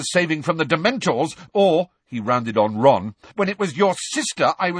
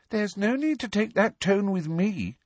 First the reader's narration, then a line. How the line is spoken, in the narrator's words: she said coolly